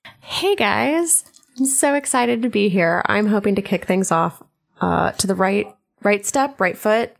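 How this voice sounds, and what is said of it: Smooth AM radio host voice. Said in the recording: “That was a real nice, like, AM radio voice. ... It was. ... Very Delilah.”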